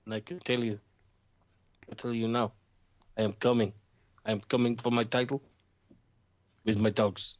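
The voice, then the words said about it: Put-on Russian accent. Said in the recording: “we've done a better job of sustaining a Russian accent in the last 10 minutes than Lana's done in the last 10 fucking weeks.”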